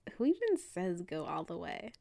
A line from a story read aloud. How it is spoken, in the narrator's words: Kali laughed